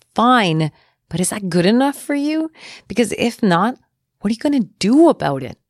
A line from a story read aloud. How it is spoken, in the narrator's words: she smashes the dining table hard with her hand and yells